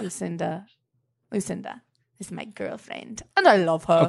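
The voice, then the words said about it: Silly funny voice. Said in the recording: “I do a lot of funny voices ... in your funny voice”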